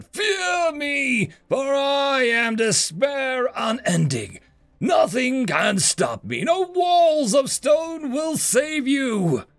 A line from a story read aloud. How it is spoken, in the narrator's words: bellowed